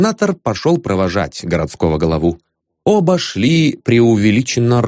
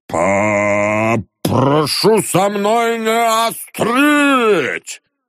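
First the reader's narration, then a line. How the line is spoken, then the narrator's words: Sudden loud shout. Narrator (Russian): закричал вдруг Чарушников на всю улицу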